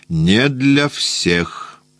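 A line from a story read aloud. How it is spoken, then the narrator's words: Indifferent, sleepy. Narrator (Russian): сказал он равнодушно, сонным голосом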